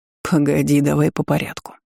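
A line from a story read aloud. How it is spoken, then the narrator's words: Soft interruption. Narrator (Russian): мягко перебил дракон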